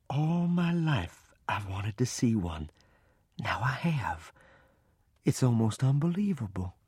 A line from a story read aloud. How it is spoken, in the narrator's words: In an awed voice, she said